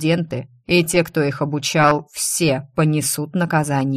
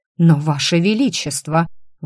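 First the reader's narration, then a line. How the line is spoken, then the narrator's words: Stunned breathless exclamation. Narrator (Russian): выдохнул пораженный заведующий кафедрой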